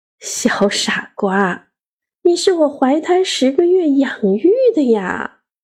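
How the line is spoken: Gentle. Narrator (Chinese): 妈妈…温柔地…说

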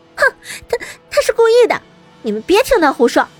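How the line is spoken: Shouting with forced calm. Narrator (Chinese): 邹庆威强装镇定的喊道

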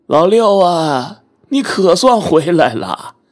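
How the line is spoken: Old man calling out. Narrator (Chinese): 一个年纪和我相仿的老头…他朝我喊了一句

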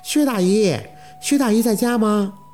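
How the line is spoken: Woman calling from gate. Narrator (Chinese): 院门口有女生喊着

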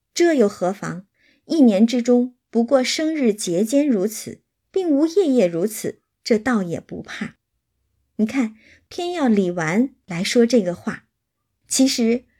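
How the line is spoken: Laughing. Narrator (Chinese): 李纨却笑说

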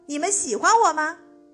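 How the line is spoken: Loud question. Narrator (Chinese): 大声问

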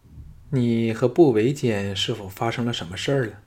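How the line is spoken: Soft sigh. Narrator (Chinese): 朱姬 轻叹道

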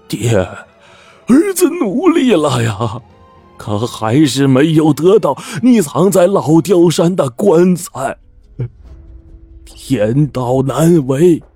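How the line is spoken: Long despairing sigh. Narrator (Chinese): 他仰天长叹

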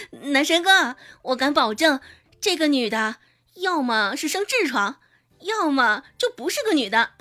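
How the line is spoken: Laughing loudly. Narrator (Chinese): 唐一贤这时候大笑起来

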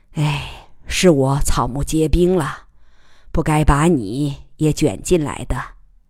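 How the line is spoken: Sighing old man. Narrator (Chinese): 贺老叹道

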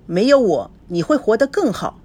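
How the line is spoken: Cold. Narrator (Chinese): 孙娜冷冷地说

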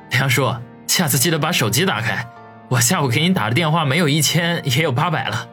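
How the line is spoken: Chuckling, half-joking. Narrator (Chinese): 王宇呵呵一笑，半开玩笑的说道

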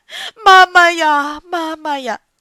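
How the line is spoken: Someone wailing loudly. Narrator (Chinese): 外面有人在大哭

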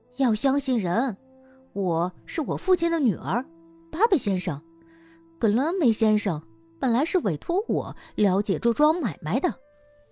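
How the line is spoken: Soft, gentle reply. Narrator (Chinese): 埃博妮娜柔声细气的回答

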